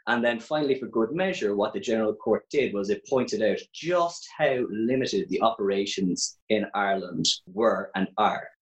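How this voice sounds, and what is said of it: Irish Cork accent. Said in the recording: “you can probably tell from my accent, I'm from Ireland. I'm actually from Cork”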